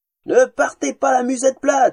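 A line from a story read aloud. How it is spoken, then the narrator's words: Buxom woman shouting. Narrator (French): hurlait une femme plantureuse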